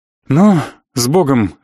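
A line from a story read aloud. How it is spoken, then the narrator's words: Sighing. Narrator (Russian): вздохнул я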